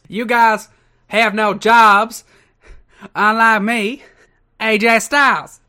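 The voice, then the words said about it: Put-on southern accent. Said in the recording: “does love his southern accent.”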